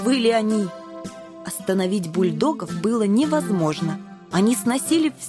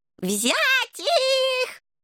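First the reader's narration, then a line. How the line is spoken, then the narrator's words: King's shriek. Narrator (Russian): завизжал король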